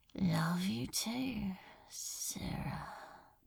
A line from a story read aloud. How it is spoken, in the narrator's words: hissed